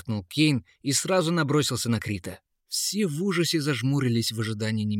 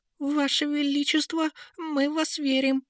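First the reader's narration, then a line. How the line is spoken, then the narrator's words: Uncertain bleating. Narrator (Russian): неуверенно проблеял чистый советник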